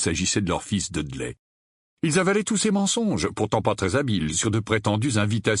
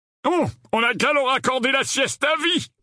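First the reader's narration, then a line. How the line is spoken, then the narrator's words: Grumbled. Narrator (French): grogna l'oncle Vernon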